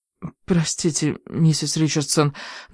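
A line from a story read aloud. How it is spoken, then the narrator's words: Trembling voice. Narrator (Russian): дрожащим голосом сказала я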